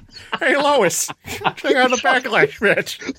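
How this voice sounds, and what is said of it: Peter Griffin impression. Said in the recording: “that impression? ... a Peter Griffin”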